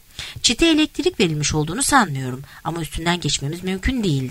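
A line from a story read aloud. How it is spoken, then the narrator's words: Plain. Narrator (Turkish): dedi Tim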